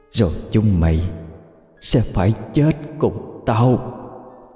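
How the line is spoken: Trembling, bitter, venomous. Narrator (Vietnamese): run rẩy, ai oán, buông lời cay độc

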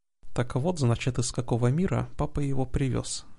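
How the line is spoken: Muttered. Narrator (Russian): пробормотала Лайла

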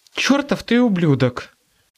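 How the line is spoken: Breathy, smiling. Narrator (Russian): выдохнула Сьюзен, но в голосе слышалась улыбка

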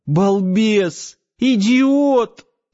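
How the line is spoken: Sobbing harder. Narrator (Russian): пуще прежнего зарыдала Надя

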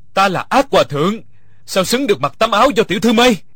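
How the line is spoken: Mad laughter, loud. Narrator (Vietnamese): Địch Dân sằng sặc cười điên dại, lớn tiếng nói

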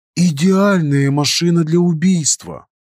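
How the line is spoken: Admiring remark. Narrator (Russian): не менее восхищенным голосом заметил Шелдон

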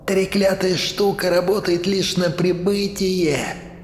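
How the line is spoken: Whined. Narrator (Russian): скулил Плотояд

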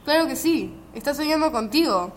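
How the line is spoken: Triumphant exclamation. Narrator (Spanish): exclamó Tralalá, dando palmas con actitud triunfante

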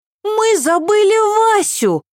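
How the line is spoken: Exclaiming. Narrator (Russian): воскликнула Ева

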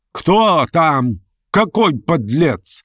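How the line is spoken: Spiteful shriek, old woman. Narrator (Russian): злобно провизжал уже совершенно соответственный оскорблению женский голос старой девы, родственницы Вергинского

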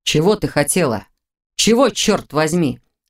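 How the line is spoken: Growled. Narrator (Russian): зарычал Виктор

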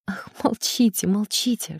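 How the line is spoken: Whisper. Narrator (Russian): шептала она

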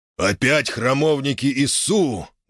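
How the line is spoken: Angry growl. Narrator (Russian): гневно прорычал дракон

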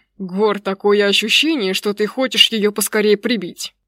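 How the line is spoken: Snapping retort. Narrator (Russian): огрызнулся его друг

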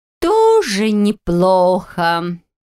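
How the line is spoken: Drawling. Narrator (Russian): протянула Стефа

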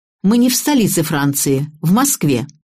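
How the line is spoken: Angry. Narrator (Russian): разозлилась и сердито сказала

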